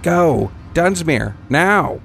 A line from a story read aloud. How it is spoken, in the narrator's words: Tapper cried